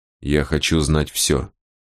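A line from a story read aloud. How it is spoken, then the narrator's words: Quiet, very calm. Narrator (Russian): тихим и очень спокойным голосом сказал Босх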